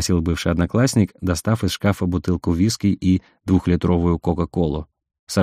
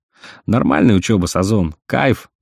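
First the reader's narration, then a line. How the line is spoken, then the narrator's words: Drunken laughter. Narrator (Russian): смеялся Мишка пьянее на глазах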